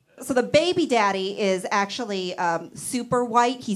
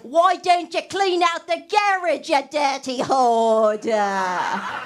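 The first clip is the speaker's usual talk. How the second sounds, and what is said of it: Put-on British accent. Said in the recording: “He's British. ... that's so sexy, that accent.”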